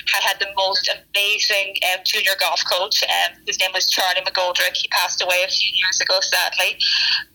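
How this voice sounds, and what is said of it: Irish accent. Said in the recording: “you can probably hear the accent. Grew up in Ireland.”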